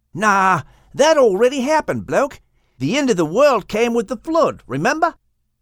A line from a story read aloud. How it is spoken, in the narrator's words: Boomer exclaimed